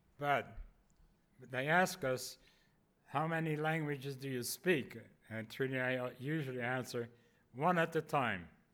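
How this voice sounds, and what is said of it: Foreign accent in English. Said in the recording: “you are hearing an accent.”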